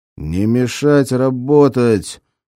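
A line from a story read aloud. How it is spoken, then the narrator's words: Growl. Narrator (Russian): прорычал Гнедин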